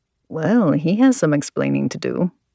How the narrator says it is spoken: Alessandro murmured

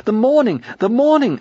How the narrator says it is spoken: I cried

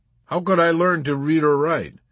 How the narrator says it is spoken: Chief White Half-Hoat demanded with simulated belligerence, raising his voice again

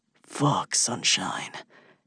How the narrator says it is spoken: growls

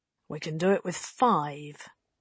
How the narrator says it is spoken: the mutineer chief said quietly

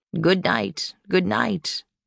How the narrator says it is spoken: he would croak along with them

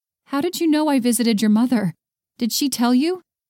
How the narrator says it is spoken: Travis gave a scathing laugh

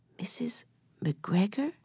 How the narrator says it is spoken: said Bill in a whisper

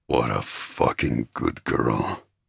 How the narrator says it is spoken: he growled

